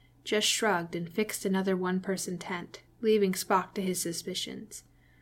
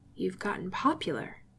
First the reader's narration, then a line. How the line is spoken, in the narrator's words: Jim observed quietly